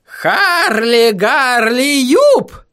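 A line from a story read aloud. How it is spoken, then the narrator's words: Howl. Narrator (Russian): взвыл он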